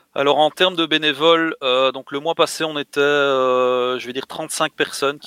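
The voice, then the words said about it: Belgian French accent. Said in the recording (French): “vu ton accent et vu le mot bitrail, c'est belge ... Tout à fait. Exactement.”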